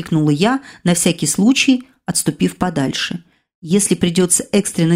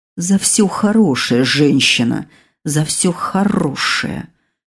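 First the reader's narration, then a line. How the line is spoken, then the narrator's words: Quiet calm menacing growl. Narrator (Russian): Раздалось тихое такое рычание можно сказать спокойное как затишье перед бурей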